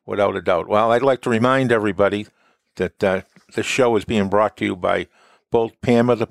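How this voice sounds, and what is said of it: Boston accent. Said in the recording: “that Boston accent”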